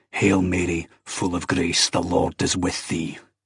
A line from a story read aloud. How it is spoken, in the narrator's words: savagely out loud